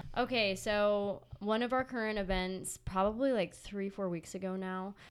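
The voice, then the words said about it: Congested, nasal voice. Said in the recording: “I sound very sick. I'm not sick. I don't know. I'm just congested. ... I just sound really nasally.”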